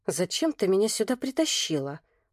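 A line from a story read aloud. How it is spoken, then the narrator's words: Whisper in ear. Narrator (Russian): прошептала я на ухо Ксюше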